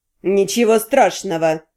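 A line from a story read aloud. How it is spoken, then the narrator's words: Suppressed angry words through teeth. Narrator (Russian): Процедил Генрих, изо всех сил пытаясь согнать с лица выражение гнева и ненависти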